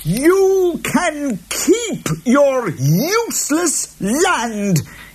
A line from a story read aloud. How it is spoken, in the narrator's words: he yelled at Jude